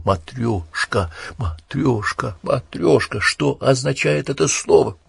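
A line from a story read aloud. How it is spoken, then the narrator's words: Unconscious mutter while running. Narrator (Russian): Сам себе не отдавая отчет, он бормотал на бегу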